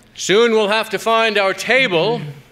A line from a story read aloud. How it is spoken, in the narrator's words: he shouted